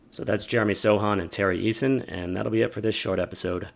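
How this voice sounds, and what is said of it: Raspy voice. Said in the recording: “what I imagine is a fairly raspy voice... I'm currently recovering from COVID”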